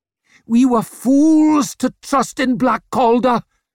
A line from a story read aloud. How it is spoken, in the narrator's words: shouted Yort